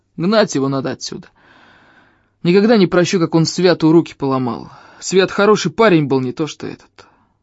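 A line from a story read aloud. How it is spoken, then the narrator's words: Grumble. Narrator (Russian): пробурчал он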